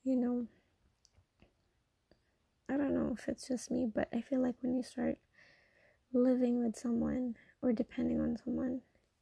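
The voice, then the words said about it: Teary, emotional voice. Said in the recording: “I'm getting teary right now”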